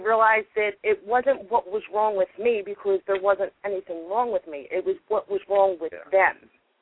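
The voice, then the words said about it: Thick New York accent. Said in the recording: “thick accent ... It's very thick New York”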